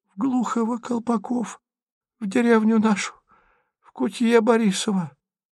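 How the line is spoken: Whispered. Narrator (Russian): почему-то шепотом отвечала та

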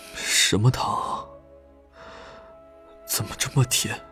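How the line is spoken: Slightly trembling voice. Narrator (Chinese): 钟婉 声音微微发颤

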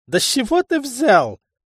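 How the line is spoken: Laughing loudly. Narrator (Russian): расхохотался шутник

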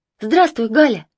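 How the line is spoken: Shouted greeting. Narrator (Russian): крикнула Марина, увидев подругу

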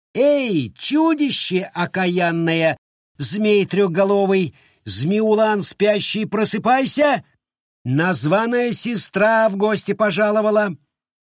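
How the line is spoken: Ringing shout. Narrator (Russian): звонко выкрикнуть

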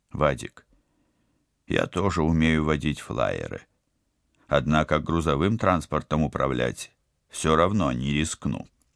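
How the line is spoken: Soft but firm objection. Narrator (Russian): мягко, но непреклонно возразил Станислав

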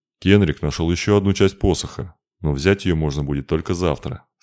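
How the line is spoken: Plain, old man. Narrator (Russian): сказал старик

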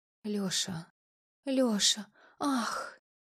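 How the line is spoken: Passionate whisper. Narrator (Russian): Ее шепот

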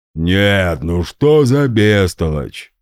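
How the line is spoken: Booming drone. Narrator (Russian): прогудел Гундахар

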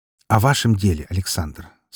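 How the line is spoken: Calm. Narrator (Russian): спокойно проговорил Меркулов

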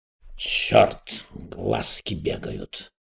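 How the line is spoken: Muttering. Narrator (Russian): пробормотал Эраст Петрович

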